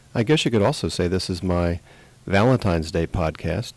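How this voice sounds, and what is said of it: Congested, out-of-sorts voice. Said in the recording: “my voice is a little out of sorts. I've been down with a cold for several days here”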